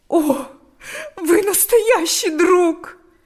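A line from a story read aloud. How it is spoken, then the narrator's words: Speaking, then sobbing. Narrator (Russian): сказала и разрыдалась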